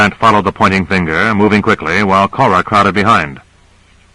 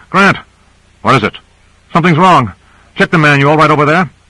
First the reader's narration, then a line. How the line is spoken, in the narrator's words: called out